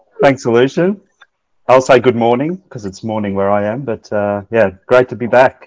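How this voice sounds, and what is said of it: Slightly leveled Australian accent. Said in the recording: “Your accent has kind of leveled slightly because really deep down you're a boy from Shepparton ... I don't have a Dutch accent”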